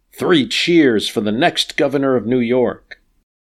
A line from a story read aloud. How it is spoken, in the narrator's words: some of the troops shout